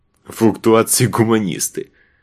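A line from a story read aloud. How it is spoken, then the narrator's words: Short laugh. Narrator (Russian): хохотнул Заль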